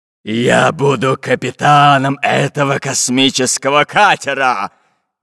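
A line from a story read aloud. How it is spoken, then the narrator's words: Menacing declaration, stout man. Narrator (Russian): Грозным голосом заявил рыжебородый толстяк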